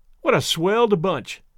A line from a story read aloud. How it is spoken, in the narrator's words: exclaimed Tom Lindsay